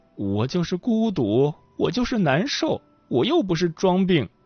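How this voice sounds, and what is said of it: Quiet, dejected muttering. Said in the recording (Chinese): “老太太有些气馁，小声嘀咕道”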